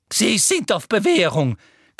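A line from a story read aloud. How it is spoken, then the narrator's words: Shrieked. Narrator (German): kreischte Professor Umbridge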